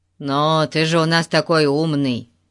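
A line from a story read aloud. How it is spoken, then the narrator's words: Angry grumble. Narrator (Russian): сердито пробурчал Ларри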